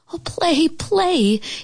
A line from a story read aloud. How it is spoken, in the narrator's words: Geraldine begged